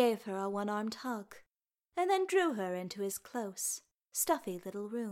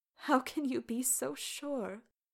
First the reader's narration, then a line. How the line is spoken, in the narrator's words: demanded tearfully